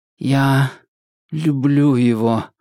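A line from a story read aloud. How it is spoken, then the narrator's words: Dull muffled voice. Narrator (Russian): глухо произнес юноша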